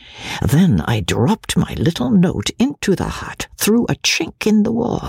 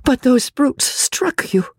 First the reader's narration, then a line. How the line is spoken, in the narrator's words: she gasped in horror, at the bare recollection of the fearful indignity